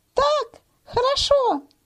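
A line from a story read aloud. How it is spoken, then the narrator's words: Thin little voice. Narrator (Russian): снизу с земли ему ответила тоненьким голоском Маня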